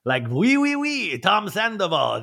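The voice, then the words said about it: Put-on French accent. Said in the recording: “That's my French accent.”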